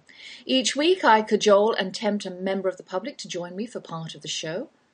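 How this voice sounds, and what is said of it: English accent. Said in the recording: “that's my English accent you're hearing”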